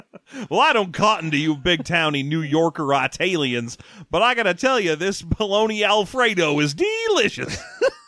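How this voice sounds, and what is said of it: Put-on rural Southern American accent. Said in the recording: “I don't know why we're giving these accents to rural Arizona. ... It's a pocket of rural Arizona that is also Kentucky.”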